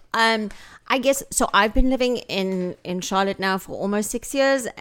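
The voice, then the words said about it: South African accent. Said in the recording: “they either assume I'm British or I'm Australian... Are you South African?... I love my accent”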